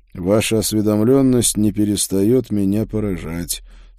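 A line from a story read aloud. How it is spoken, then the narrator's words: Dry reply. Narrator (Russian): сухо ответил я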